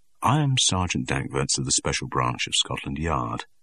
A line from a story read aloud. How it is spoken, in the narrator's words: he said in a quiet, peaceful voice